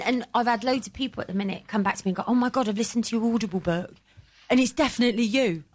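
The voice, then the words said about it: Devon English accent. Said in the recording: “You can tell it is Devonian ... you've actually got a Devonshire accent. I'm like, I have.”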